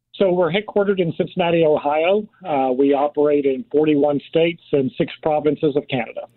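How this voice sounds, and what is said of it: Non-Rhode Island American accent. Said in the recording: “you're not a Rhode Islander. I can tell by your accent.”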